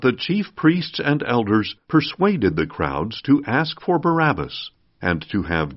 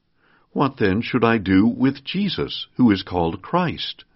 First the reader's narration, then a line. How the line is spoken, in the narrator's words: Pilate asked